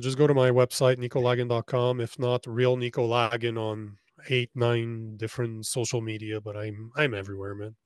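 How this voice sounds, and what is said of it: French accent. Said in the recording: “with a French accent”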